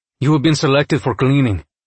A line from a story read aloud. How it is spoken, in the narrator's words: he said, speaking in common but with a pronounced accent that must have been Portuzonian